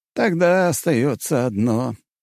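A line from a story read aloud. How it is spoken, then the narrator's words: Sad smiling old man. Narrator (Russian): старик печально улыбнулся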